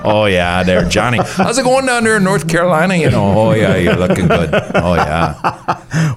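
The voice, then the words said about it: Put-on Minnesota accent. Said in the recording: “don't get me started on the accent, Minnesota”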